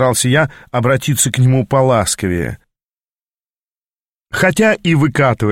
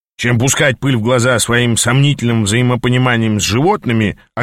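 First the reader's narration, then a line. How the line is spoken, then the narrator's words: Snapping retort. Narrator (Russian): огрызнулся Ас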